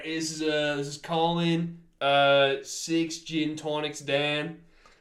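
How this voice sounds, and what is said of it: Exaggerated fake Australian accent. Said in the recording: “maybe the most offensive Australian accent I could possibly do ... I've heard worse ... I've heard better”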